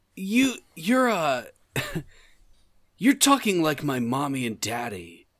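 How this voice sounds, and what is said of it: Childlike Sonic character voice. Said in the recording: “Sonic, why is your voice so weird in this game? ... You sound like a child trying to sound like an adult.”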